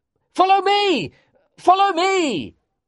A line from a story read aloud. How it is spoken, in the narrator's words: I shouted